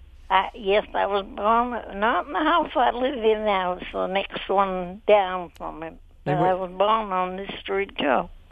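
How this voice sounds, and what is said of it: Maine accent. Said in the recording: “accent that I detect, is that a Maine accent?”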